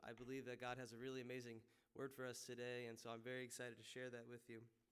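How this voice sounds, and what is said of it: Slightly sore, strained throat. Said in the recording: “I have a little bit of a sore throat”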